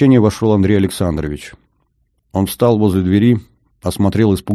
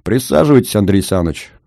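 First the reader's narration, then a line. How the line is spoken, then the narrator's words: Cheerful. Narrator (Russian): весело сказал я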